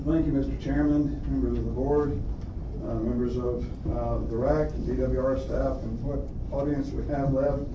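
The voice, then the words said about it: Mild southern American accent. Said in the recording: “my southern accent more than you probably hear right now”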